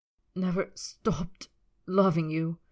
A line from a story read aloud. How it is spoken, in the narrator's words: Draco choked the words